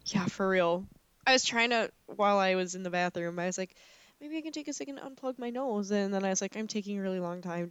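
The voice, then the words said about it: Congested, struggling-to-breathe voice. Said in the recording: “I'm sorry in advance if you hear me like struggling to breathe. My allergies are so bad right now ... I sound like a pug ... You need to unplug your nose.”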